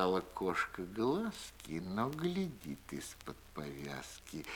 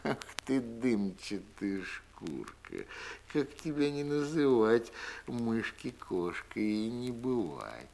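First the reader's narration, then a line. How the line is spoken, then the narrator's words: Laughing. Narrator (Russian): Засмеялась кошка-мурка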